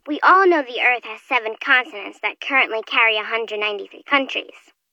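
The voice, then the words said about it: Young child's voice. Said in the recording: “You sound so young.”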